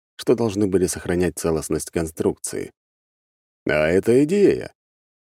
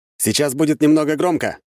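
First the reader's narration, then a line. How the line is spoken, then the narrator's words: Shout. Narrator (Russian): крикнул я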